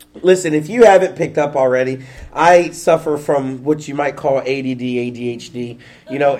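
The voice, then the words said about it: Slightly stuffy, congested voice. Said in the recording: “I'm kind of sick a little bit ... if I sound a little stuffy, you know, it's because I am.”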